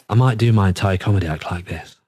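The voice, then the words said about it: Sexy, intimate low voice. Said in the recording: “sexy voice ... Oh, intimate. Intimate. ... Give me chills.”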